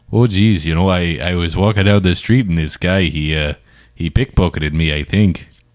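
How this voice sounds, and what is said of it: Put-on Wisconsin accent. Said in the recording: “Give me a different accent or something. Pretend you just got robbed. ... you sound like you're in Wisconsin, which is good. I like where you're going.”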